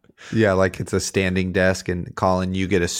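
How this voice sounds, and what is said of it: Usual voice. Nothing is said of it.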